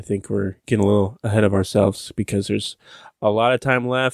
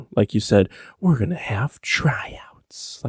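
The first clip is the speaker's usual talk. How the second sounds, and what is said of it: Poor impression of the Joker. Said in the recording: “That was a terrible Joker impression”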